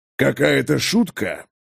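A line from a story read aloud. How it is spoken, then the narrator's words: Speaking through teeth. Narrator (Russian): процедил Олаф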